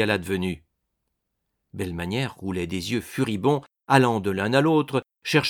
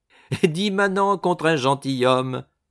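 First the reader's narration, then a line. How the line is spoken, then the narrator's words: Laughing. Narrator (French): dit Jugu en riant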